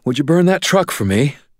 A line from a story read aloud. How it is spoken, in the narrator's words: Susan said, panting